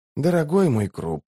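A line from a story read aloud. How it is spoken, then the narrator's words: Sighing. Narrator (Russian): вздохнул Барук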